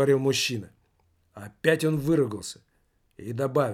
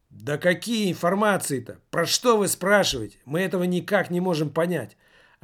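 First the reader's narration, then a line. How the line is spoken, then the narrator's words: Furious yell. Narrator (Russian): Окончательно выйдя из себя, завопил маркетинг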